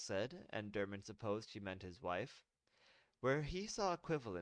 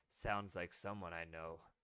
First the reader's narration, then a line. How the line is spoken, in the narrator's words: Dermot said … with a chuckle